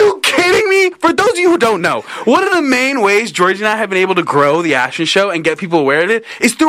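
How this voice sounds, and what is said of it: Usual voice. Nothing is said of it.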